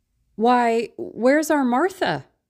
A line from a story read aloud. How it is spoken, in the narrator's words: cried Bob Cratchit